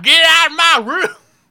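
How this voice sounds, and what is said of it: Imitated southern accent. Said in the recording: “his dad has such, like, a southern accent of, like,”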